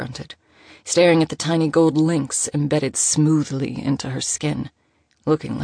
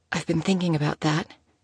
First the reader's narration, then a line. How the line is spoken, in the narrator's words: whispered